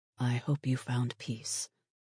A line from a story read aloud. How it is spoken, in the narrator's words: he whispered